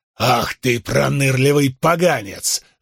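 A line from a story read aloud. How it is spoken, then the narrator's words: Barking man. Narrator (Russian): рявкнул мужчина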